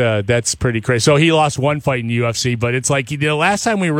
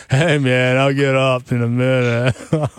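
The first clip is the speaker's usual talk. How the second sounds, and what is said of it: Cheech and Chong stoner voice. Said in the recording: “we finally found an accent or voice ... can do... Am I talking to Cheech or Chong?”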